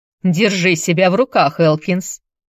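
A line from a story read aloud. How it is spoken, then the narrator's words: Priest's sharp rebuke. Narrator (Russian): прикрикнул на своего помощника священник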